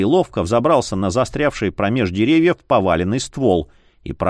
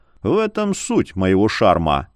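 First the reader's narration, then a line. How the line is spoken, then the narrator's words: Amused snort. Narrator (Russian): Полумесяц хмыкнул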